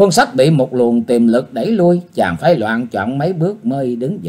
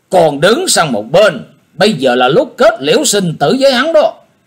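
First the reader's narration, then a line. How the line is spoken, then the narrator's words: Loud shout. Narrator (Vietnamese): thuyền chủ quát lớn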